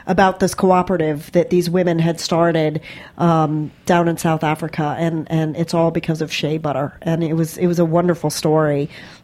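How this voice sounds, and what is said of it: Voice a bit off from a cold. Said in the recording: “I have a little cold, so my voice is a little funky”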